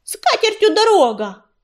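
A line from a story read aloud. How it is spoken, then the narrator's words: Yelling after someone. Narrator (Russian): завопила ему вслед Белочка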